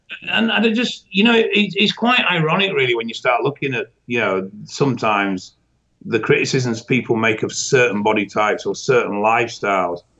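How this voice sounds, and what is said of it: Thick regional accent. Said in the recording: “you lost me with the accent there for just a second ... just as thick to you”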